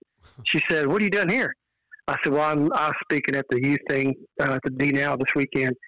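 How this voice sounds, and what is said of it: Texan accent. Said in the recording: “I'm from Texas. She said, Yeah, I can tell by the accent.”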